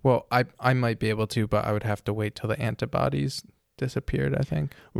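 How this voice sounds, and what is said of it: Hoarse, strained voice from illness. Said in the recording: “I am losing my voice because I am sick ... I just have a cold or something, but my throat is killing me”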